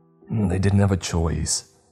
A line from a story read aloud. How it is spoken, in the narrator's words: I said through gritted teeth